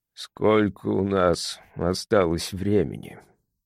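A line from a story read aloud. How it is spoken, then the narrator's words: Barely audible. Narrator (Russian): Вопрос был задан так тихо, что я едва расслышал его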